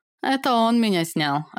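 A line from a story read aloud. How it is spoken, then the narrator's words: Laughing. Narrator (Russian): рассмеялась я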